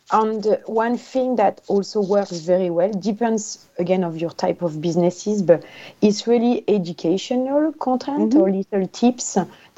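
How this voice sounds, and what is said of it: Speaks with a non-native accent. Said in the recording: “I can't even say that with my accent”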